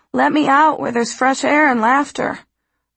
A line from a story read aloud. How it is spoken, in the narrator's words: a voice within me cries